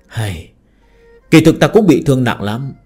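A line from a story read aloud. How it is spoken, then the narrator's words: Frowning sigh. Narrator (Vietnamese): Phương Hành nhíu mày thở dài nói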